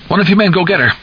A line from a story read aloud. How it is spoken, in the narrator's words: Hockstetter cried